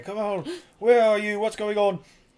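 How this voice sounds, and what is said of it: Put-on British accent. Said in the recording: “Why do I have a British accent?”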